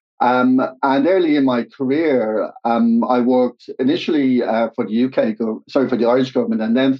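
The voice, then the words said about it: Irish accent. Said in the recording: “studied in, in Dublin, Ireland, as you can probably tell from uh, the accent”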